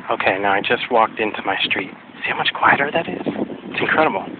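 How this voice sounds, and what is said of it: Strained, fading voice. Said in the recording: “I'm losing my voice. ... after a cold”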